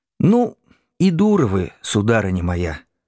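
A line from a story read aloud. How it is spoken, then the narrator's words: Calm old woman. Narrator (Russian): спокойно сказала ей бабушка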